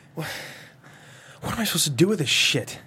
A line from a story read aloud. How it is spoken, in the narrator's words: He sighs